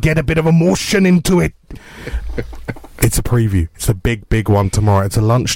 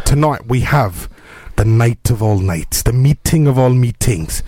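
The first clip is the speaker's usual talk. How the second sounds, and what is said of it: Put-on Welsh accent. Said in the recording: “I don't know why I've done that in a Welsh accent.”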